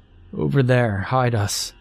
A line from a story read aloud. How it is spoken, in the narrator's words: he said weakly